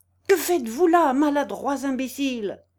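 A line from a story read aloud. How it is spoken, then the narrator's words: Angry shrill piercing shout. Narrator (French): s'écria et d'une voix de fossé que la colère rendait aiguë et perçante comme celle d'un fifre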